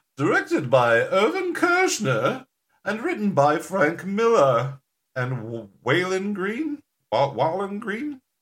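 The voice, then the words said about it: Imitates another person's voice. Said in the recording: “Where is this accent coming from? ... I think it had a little bit of Julia Child.”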